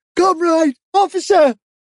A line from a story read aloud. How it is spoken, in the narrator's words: he cried